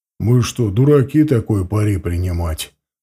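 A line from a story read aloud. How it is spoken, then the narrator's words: Plain. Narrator (Russian): ответил Галатиан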